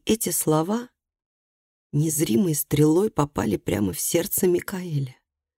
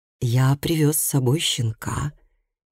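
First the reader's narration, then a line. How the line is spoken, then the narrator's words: Said softly. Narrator (Russian): мягко сказал Микаэль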